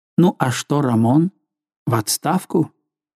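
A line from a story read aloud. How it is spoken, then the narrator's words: Muttered. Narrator (Russian): Он пробормотал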